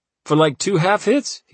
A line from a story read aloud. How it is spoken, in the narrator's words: laughed